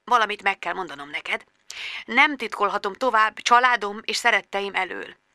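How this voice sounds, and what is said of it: Self-pitying croaky whisper. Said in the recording (Hungarian): “Krákogta anyu önsajnáló, rekett suttogással.”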